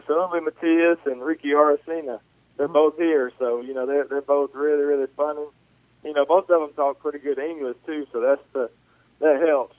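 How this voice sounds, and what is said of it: Strong Southern US accent. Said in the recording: “do you have the best Southern accent in the Royals organization? ... Mine sticks out a little bit more than theirs”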